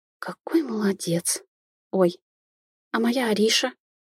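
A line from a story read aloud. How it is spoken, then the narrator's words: Astonished gasp, hissing in pain. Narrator (Russian): Пораженно выдохнула я, тут же зашипев от боли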